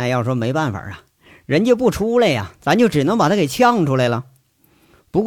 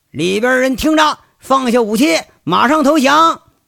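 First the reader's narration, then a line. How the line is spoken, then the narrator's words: Shouting through megaphone. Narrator (Chinese): 有人呢就用扩音器在这喊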